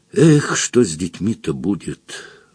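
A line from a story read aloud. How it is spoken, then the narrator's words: Sigh. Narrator (Russian): вздохнул Фондорин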